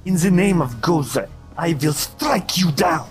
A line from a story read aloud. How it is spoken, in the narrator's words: snarls and she kind of bolts back and says